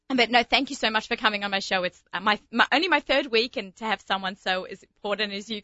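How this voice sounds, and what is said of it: Speaks with a distinctive accent. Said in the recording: “got this great accent ... Something I was born with.”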